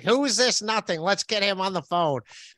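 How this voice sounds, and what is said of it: Imitates another person's voice. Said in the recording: “That was a good impression. That was a good impression of Red Bar.”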